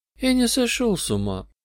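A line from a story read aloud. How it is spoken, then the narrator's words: Madman speaking sadly. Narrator (Russian): сказал безумец печально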